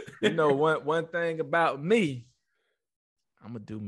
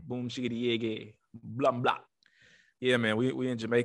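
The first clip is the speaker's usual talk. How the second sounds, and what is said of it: Poor put-on Jamaican accent. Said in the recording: “terrible Jamaican accent”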